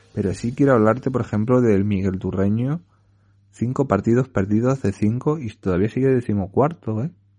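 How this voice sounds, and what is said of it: Spanish Puertollano regional accent, Andalusian-like. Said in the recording (Spanish): “el andaluz, bueno, andaluz cerca de Andalucía ... muy normal que me salga este acento tan característico que, yo tengo. Y lo, que tenemos de puertollano, porque casi todos los puertollanos tenemos este acento”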